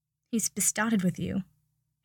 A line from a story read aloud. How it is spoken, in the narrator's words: Harry said softly